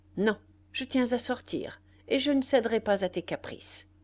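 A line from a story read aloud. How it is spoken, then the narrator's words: Sharp, harsh reply. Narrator (French): Elle répliqua nettement, durement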